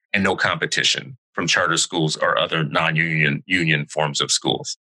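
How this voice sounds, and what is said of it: Distorted robotic-sounding voice. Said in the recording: “I know you got the robot voice,”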